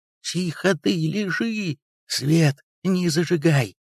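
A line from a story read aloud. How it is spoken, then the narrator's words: Sighing woman. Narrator (Russian): хозяйка вздохнула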